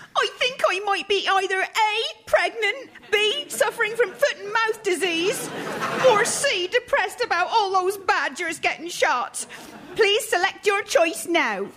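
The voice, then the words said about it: Stereotypical Yorkshire accent. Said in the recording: “stereotypical Yorkshire accent”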